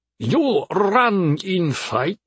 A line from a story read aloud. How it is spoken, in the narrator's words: asked with a thick accent